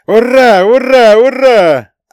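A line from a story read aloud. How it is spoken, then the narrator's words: Group roaring in unison. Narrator (Russian): образцово-показательно проревели комсомольцы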